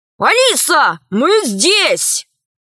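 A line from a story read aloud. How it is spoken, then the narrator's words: Shouted. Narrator (Russian): Пашка закричал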